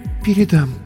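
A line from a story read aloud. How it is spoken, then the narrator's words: Barely audible stammer. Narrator (Russian): еле слышно пролепетала Инна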